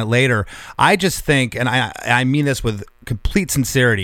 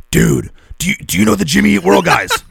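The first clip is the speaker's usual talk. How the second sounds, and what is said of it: Imitates another person's voice. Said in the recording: “That's my Chuck impression.”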